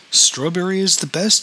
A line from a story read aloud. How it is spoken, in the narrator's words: said